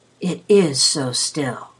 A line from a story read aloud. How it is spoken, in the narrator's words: whispered Marco